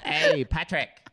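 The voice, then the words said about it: SpongeBob cartoon character voice. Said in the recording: “my SpongeBob impression”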